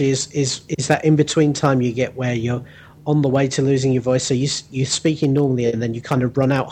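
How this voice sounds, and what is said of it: Usual voice. Nothing is said of it.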